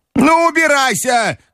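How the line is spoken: Grandmother shouting. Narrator (Russian): крикнула бабушка

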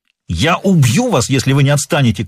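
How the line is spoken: Shouting. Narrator (Russian): крикнул Норман

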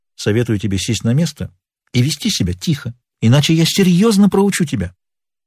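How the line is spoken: Calm statement. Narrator (Russian): Боб спокойно произнес

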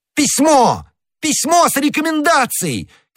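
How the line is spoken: Shouting. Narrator (Russian): кричал Д'Артаньян

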